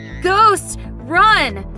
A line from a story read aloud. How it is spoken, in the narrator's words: My brother shouted in panic